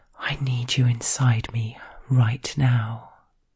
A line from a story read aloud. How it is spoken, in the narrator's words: I whisper